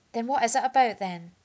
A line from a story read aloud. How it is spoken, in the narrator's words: sighed